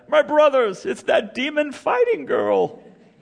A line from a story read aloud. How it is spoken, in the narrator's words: the bandits cried